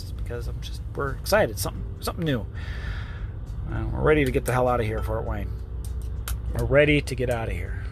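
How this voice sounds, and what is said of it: Talking very fast, excited. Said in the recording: “I'm talking really fast.”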